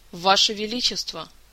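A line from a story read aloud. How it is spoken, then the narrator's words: Icy cold tone. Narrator (Russian): Самым ледяным тоном, на который только была способна, произнесла она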